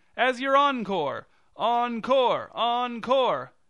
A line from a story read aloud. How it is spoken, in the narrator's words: shouted the director's husband